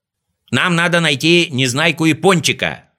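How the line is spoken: Shouted reply. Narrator (Russian): закричал в ответ Знайка

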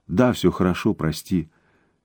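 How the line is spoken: Quiet. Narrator (Russian): тихо сказала Наока

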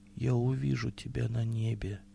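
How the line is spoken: Very quiet, impassive. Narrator (Russian): сказал, бесстрастный голос прозвучал так тихо, что только умирающий услышал его слова

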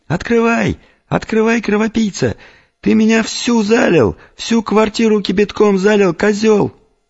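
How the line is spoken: Woman's squealing shouts. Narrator (Russian): женщина, мимолетно рекрутированная Ольгой, повизгивая при этом

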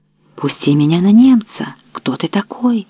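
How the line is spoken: Exclamation. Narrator (Russian): воскликнул Збышка

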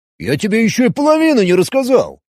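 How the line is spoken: Offended objection. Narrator (Russian): обиженно возразил Роберт

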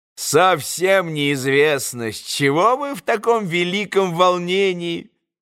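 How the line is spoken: Mocking remark. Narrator (Russian): насмешливо заметил Федор Павлович

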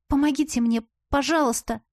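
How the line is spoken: Timid, humbled babble. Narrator (Russian): Наступив на горло гордости, пролепетала я

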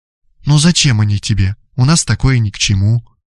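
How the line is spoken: Tender murmuring. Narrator (Russian): ласково приговаривая

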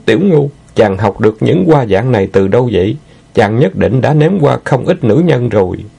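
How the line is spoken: Groaning, discontented. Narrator (Vietnamese): Nguyệt Lâm rên lên hừ hự nhưng vẫn bất mãn nói

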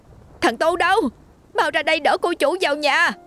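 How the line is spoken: Woman shouting. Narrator (Vietnamese): Bà hét lên

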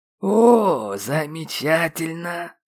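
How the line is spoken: Sour drawl. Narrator (Russian): Кисло протянул я

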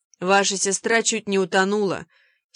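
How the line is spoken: Angry old man. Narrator (Russian): сердито сказал старый джентльмен

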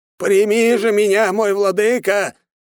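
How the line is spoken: Old man yelling. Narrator (Russian): заорал дед

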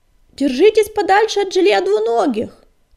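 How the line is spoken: Shout after them. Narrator (Russian): крикнул им вслед Огнегрив

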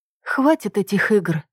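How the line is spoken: Sighing. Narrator (Russian): я вздохнула

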